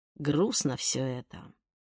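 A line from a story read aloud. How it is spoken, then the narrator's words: Muttering. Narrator (Russian): пробормотал Кирилл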